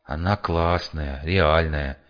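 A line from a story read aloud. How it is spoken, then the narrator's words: Lazy mumble. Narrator (Russian): лениво пробормотал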